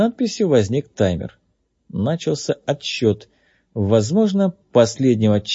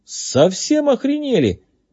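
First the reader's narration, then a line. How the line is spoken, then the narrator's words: Exclaimed. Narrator (Russian): воскликнул Джей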